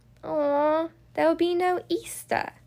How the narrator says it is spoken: says sadly

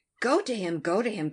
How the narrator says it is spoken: cried Anne

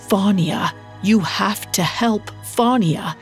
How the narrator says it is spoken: She croaked out

